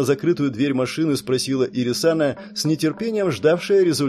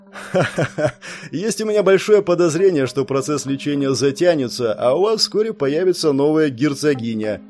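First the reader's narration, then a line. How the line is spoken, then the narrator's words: Laughing demon. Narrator (Russian): рассмеялся демон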